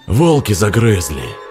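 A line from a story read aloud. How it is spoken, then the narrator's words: Grumbling. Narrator (Russian): бурчал Федор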